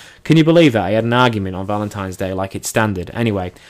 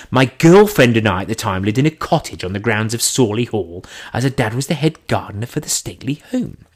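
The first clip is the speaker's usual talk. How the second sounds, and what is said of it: Imitated posh English accent. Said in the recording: “I'll try and do it in his posh accent because he is very posh... I'm not doing any more Charlie accent”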